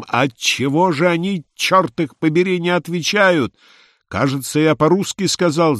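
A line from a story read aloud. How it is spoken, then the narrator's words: Furious, terrible exclamation. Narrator (Russian): совсем уже рассерженный император воскликнул своим ужасным голосом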